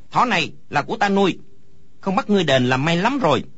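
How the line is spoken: Child's angry shout. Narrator (Vietnamese): Đứa trẻ kia đột nhiên lông mày dựng ngược, hai mắt mở to quát lớn

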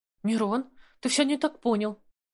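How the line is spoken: Cried out. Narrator (Russian): вскрикнула Алена

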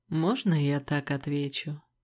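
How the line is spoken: Amused smirk. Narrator (Russian): усмехнулся он

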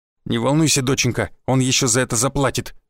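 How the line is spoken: Angry snort. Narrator (Russian): зло фыркнул купец

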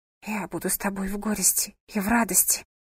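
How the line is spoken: Whispered vow. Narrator (Russian): прошептала она

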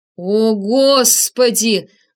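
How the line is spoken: Howling. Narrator (Russian): взвыл я

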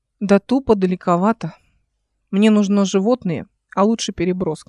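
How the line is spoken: Plain. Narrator (Russian): сказала она

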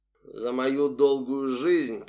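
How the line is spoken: Through gritted teeth. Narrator (Russian): процедил

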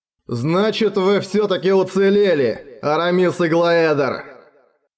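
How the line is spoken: Loud and clear. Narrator (Russian): громко и отчетливо произнес Гальбаторикс

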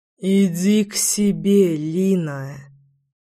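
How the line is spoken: Hissed. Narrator (Russian): прошипел мужчина

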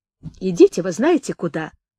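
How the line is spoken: Indignant young woman. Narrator (Russian): говорила возмущенно девушка

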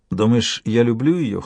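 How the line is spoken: Dismissive snort. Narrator (Russian): хмыкнул Кеннет

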